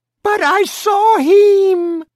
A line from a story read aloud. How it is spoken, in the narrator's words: the mother screamed